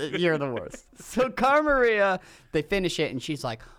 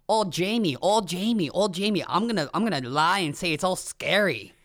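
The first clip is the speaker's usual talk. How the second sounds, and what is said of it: Put-on Boston accent. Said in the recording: “That's my Boston accent. ... That was good.”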